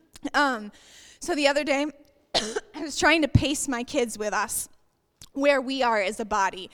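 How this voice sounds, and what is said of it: Hoarse, fading voice. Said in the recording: “I'm losing my voice, sorry, I've been sick all weekend.”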